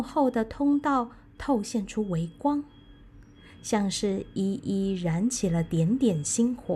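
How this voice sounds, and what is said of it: Usual voice. Nothing is said of it.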